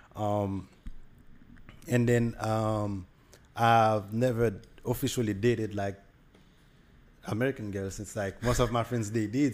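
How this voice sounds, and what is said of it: Heavy Haitian-influenced accent, hard to understand. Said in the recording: “my accent is kind of hard ... most of my friends, they have like a, like an easier accent to understand ... mine is kind of harder because I hang out with Haitian people more”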